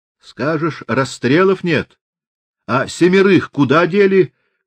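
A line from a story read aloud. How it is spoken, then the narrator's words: Shouted from the back rows. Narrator (Russian): крикнули из задних рядов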